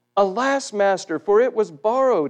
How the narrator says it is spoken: he cried to the prophet Elisha

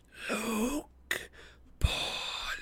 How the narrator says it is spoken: The snakes, George and Martha, murmuring

